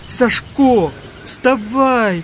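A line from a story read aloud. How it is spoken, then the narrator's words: Shout. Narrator (Russian): закричал Николка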